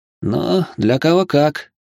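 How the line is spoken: Wry snort. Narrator (Russian): хмыкнул

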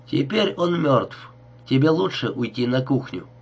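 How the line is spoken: Very calm. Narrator (Russian): Она произнесла очень спокойно

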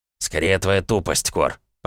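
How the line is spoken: Hissing. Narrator (Russian): прошипел Кринг

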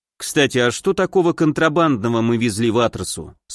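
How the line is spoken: Plain. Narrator (Russian): спросил я

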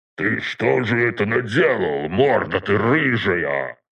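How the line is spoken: Old man growling. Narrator (Russian): рычал дед

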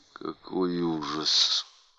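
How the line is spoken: Muttered. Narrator (Russian): пробормотала Кэтрин

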